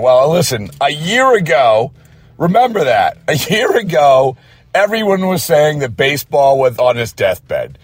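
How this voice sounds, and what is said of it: Hoarse voice. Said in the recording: “My voice is hoarse from screaming it from the mountaintops”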